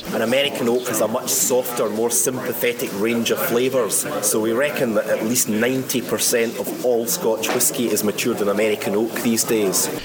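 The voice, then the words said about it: Scottish accent. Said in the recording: “You'll love a good Scottish accent.”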